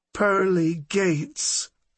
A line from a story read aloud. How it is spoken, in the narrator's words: Ethel whimpered